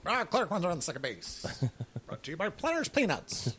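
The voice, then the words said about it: Old-time 1940s baseball announcer voice. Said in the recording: “do a really good imitation of a 1940s baseball announcer”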